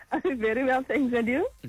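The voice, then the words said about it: Excited, animated voice. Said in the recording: “You sound very excited. ... I can hear there's just so much happening in your voice.”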